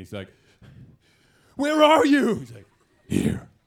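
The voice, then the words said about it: Gravelly Batman impression. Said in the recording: “does what I like to call the Batman voice ... That was a very short Batman voice”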